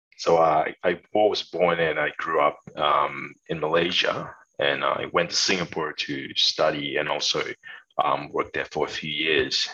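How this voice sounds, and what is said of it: Light Australian accent. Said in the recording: “you don't have the deepest of Australian accents.”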